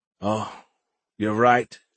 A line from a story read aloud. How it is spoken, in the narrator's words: sighed heavily